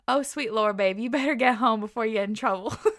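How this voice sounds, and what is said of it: Put-on Southern US accent. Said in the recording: “in his southern accent ... That was probably the wrong accent”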